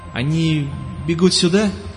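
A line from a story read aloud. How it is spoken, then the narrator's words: Uncertain young man asking. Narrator (Russian): спросил неуверенно парень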